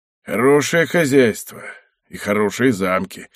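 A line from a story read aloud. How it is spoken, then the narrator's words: Gloomy grumble. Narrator (Russian): мрачно проворчал Мацка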